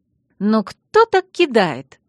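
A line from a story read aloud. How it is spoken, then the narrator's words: Exclamation. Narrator (Russian): воскликнула Алекс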